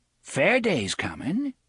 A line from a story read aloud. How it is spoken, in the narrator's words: Coral said brightly